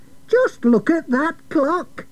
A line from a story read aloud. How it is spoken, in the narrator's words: shouted